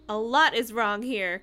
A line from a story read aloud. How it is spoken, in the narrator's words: Corey exclaimed